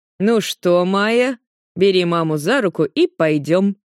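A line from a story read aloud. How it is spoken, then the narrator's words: Plain. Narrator (Russian): говорит Астафьев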